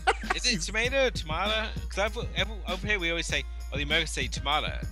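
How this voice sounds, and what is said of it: Natural English accent. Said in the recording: “someone who can pull off a flawless English accent, mainly because he's from there”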